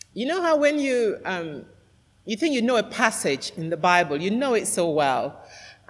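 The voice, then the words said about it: Nasal, congested voice. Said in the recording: “I sound quite nasal this morning, but I'm just coming out of a cold, so I'm not putting on a posh voice. It's just this cold that I had.”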